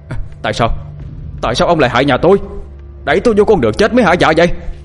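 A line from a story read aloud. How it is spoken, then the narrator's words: Anguished scream. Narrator (Vietnamese): Kiên gào lên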